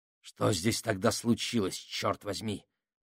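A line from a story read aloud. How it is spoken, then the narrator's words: Furious growl. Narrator (Russian): прорычал Менхаус, его глаза полыхали яростью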